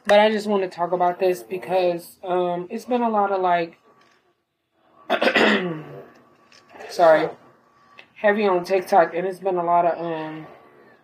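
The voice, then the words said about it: Voice sounds weak and altered. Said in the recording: “I'm losing my voice. Well, I'm getting my voice back. I was sick. And so I know I sound a little bit different.”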